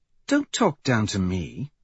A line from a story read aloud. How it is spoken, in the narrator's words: she says sharply